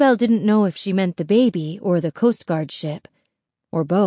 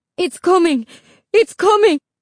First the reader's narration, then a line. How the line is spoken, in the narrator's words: Isabel's mother cried out